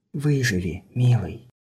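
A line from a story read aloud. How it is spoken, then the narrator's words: Whisper. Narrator (Russian): Мария прошептала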